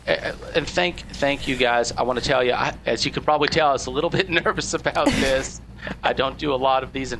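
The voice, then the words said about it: Boston accent. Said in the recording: “with this accent, maybe I can get an extra part in Goodwill Hunting 2”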